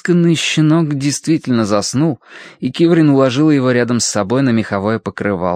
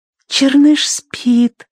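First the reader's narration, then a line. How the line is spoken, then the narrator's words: Whisper. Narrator (Russian): прошептала она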